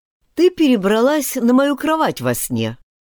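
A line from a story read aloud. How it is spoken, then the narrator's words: Plain. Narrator (Russian): ответил Аарон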